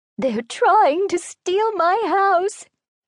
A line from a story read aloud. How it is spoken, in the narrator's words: the old woman cried